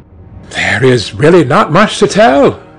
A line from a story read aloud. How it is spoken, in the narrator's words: cried Dorian